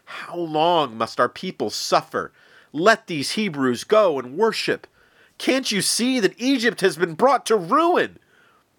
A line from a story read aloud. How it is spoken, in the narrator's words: The Pharaoh's advisors pleaded with him